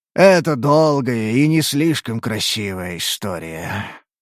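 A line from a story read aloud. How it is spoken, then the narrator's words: Sighing creature. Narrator (Russian): вздохнуло существо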